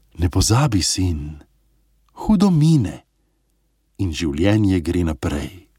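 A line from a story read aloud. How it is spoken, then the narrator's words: Calm fatherly voice. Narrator (Slovenian): Oče je spet mirno dejal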